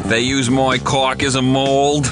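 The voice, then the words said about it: Put-on Boston accent drifting New York. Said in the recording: “Your accent's kind of... It's drifting into New York there... I'm trying to do a Boston accent.”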